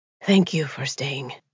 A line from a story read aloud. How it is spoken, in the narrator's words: he whispered hoarsely